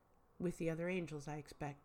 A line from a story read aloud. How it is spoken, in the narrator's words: says